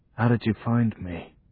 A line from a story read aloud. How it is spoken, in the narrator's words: whispered Johnny